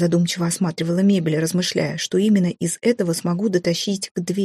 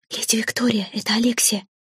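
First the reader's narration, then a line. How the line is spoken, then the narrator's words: Whisper. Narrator (Russian): раздался шепот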